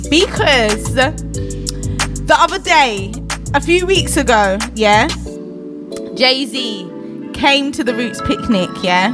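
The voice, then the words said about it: Jamaican accent. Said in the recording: “my R's and my W's, the Jamaican accent”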